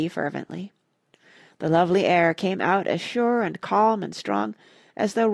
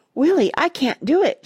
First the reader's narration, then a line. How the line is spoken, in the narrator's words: she gasped